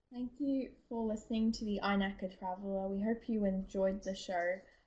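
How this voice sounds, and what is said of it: Australian accent. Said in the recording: “your awesome sounding Australian accent”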